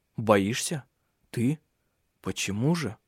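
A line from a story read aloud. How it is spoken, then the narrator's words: Whisper. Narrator (Russian): Ирия все так же прошептала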